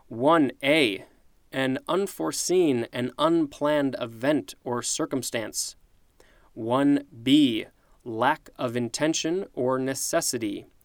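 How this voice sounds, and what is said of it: Tired, strained voice. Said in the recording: “you can kind of tell my voice is going... I'm going to have to go drink some water, and maybe some hot tea”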